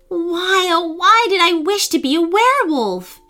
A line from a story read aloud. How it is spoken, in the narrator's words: wailed